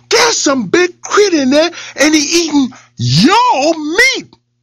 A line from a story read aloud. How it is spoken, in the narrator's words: he yelled to Boss Lion